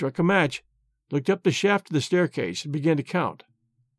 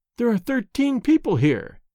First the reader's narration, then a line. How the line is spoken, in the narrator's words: he exclaimed